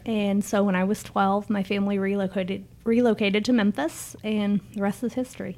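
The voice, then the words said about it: Mixed Canadian and Southern twang. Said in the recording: “You have a little bit of a southern accent. ... You have like a Canadian Southern twang. Like, ... Combined in one.”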